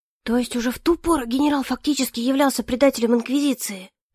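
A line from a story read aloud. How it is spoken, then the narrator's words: Group whispering. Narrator (Russian): послышались шепотки среди инквизиторов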